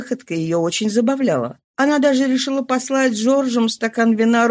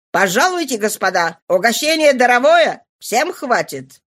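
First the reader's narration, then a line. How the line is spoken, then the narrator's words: Shrill shouting. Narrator (Russian): Ла Фолуаз визгливым голосом выкрикивал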